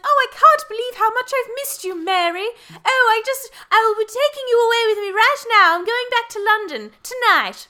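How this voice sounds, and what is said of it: Put-on British accent. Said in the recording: “For context, listeners, the mother is British. ... I think they can tell from my accent.”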